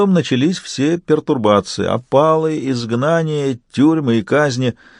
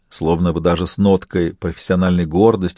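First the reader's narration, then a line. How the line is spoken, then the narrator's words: Plain. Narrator (Russian): сказал барон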